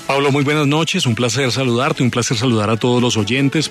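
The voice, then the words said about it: Deep radio announcer voice. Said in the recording (Spanish): “Tremenda voz de locutor tiene usted”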